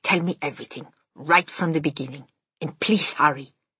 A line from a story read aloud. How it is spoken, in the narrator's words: she said sharply